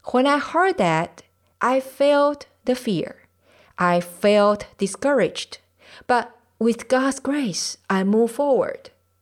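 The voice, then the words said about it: Non-native English accent. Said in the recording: “my accent and because I'm not American nor British”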